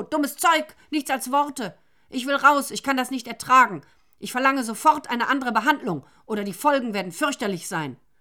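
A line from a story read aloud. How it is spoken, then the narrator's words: Shouting. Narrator (German): schrie Nero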